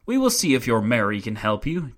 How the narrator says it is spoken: jeered one of the Bohemians

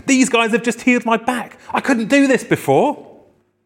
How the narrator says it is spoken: he began swearing at the top of his voice and saying

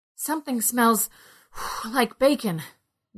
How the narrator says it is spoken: Ned said between gasps

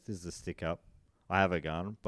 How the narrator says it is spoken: never draws the gun and just calmly says

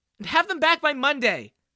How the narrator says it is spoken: she yelled

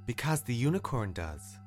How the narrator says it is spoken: Garnet returned calmly

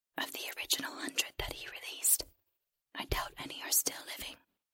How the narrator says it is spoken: the creature whispered

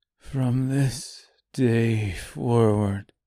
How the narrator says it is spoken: he said quietly, almost inaudibly

